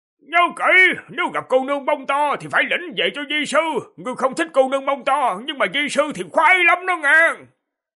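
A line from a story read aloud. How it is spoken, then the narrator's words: Hurried loud shout. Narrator (Vietnamese): vội hét to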